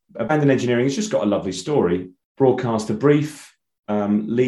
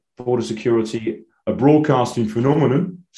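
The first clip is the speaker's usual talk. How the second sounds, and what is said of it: Poor Tim Warner impression. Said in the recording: “terrible Tim Warner impression”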